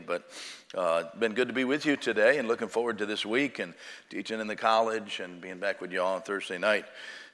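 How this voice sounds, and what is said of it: Hoarse, strained voice. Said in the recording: “My voice is trying to go on me ... I've got a little bit of a frog in your throat”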